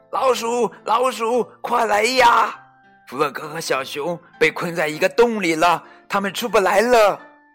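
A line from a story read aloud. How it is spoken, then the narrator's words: Screaming at full voice. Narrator (Chinese): 小鸭 用最大的声音尖叫着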